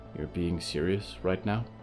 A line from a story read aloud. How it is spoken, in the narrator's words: whispered